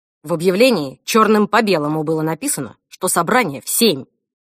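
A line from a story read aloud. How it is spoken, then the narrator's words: Loud bark. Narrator (Russian): гаркнул Альф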